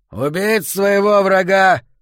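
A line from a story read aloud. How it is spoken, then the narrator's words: Shouted out. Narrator (Russian): выкрикнул Аарон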